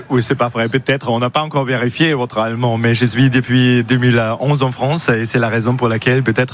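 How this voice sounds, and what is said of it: Slight German accent in French. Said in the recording (French): “vous avez un petit accent allemand qu'on aime bien, mais vous parlez un français extraordinaire ... l'accent est quand même toujours là”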